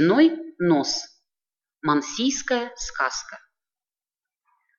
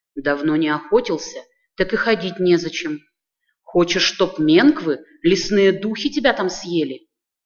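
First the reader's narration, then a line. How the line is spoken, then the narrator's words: Old woman grumbling. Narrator (Russian): Старуха заворчала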